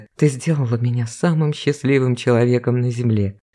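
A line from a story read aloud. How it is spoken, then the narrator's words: Man whispering. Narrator (Russian): шептал мужчина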